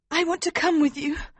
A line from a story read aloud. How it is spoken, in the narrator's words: Princess Flavia said desperately